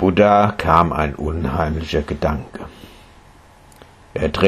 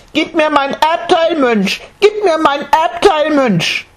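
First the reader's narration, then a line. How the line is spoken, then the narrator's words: Said then shouted. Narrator (German): sagte er, schrie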